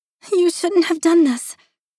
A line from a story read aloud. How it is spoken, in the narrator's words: practically wailing